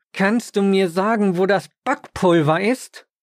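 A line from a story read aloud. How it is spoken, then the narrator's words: Almost growling. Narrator (German): Sie sagte mir, fast schon knurrend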